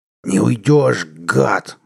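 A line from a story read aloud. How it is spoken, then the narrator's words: Angry growl. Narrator (Russian): зарычал он, увидев, что последняя стайка вражеских истребителей отступает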